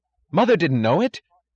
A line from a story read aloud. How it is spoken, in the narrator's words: cried Philip, then caught himself and cried louder